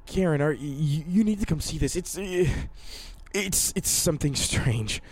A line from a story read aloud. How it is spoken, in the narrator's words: He stammered